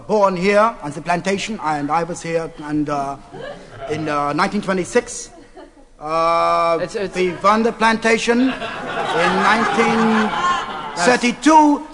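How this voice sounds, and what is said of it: Put-on Spanish accent. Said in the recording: “is that a Spanish accent you're affecting, sir?”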